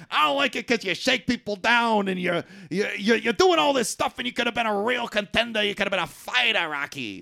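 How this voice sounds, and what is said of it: Imitates another person's voice. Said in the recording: “pretty good impersonation of him”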